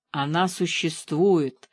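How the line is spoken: Cat's whisper. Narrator (Russian): шепнула кот ветру

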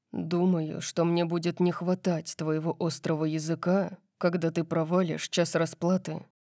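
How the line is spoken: Muttered. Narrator (Russian): пробормотал он

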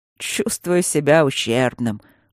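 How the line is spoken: Glum drawl. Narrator (Russian): уныло протянул Мартин

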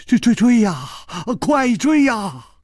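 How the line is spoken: Trembling, terrified voice. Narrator (Chinese): 金半花早已经是面无人色了，他颤声说

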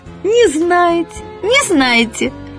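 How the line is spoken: Joyful squealing. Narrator (Russian): Она … радостно визжит

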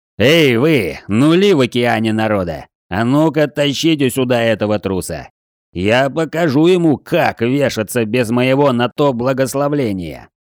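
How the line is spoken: Angry growling clergyman. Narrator (Russian): Злобно рычал церковник

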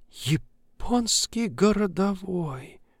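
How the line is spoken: Crushed mutter. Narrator (Russian): убитым голосом пробормотала коллега

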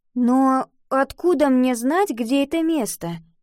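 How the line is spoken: Uncertain question. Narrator (Russian): неуверенно спросила Ива

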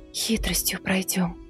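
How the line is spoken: Whispered. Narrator (Russian): прошептала Милава

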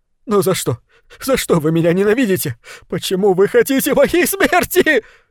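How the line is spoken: Sobbing. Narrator (Russian): Из горла его рвались рыдания

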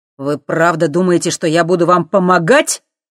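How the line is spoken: Angry exclamation. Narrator (Russian): гневно воскликнул он

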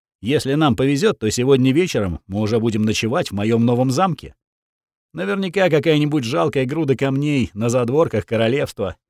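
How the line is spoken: Snorting. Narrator (Russian): фыркнул Ринальдо

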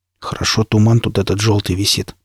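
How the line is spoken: Muttered. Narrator (Russian): пробормотал Никита

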